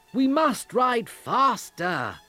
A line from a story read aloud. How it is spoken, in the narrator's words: I cried to the others